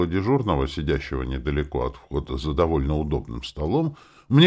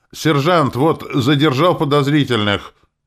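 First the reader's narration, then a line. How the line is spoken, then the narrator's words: Barked shout. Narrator (Russian): Гаркнул он с порога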